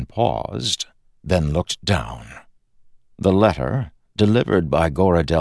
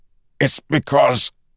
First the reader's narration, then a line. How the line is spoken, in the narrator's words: Kelsier said, grunting in pain